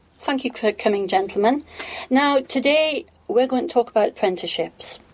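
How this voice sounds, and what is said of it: Northeast English accent. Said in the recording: “by my accent, you can tell I'm from the northeast of England”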